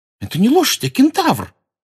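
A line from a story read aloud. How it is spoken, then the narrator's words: Indignant exclamation. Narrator (Russian): возмущенно воскликнула Лаванда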